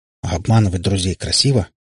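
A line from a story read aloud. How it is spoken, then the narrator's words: Grumbled. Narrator (Russian): буркнул Иван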